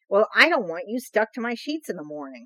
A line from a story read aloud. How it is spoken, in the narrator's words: Hutch answered testily, feeling his patience snap